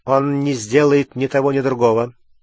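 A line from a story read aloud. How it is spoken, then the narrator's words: Plain. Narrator (Russian): сказал Снег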